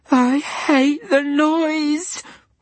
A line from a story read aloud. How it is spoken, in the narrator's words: whimpered Diana into the short silence